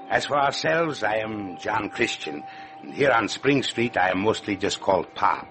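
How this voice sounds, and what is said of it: Foreign accent. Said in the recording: “My wife and I came here together from a small village near the Red Sea. You have noticed my accent”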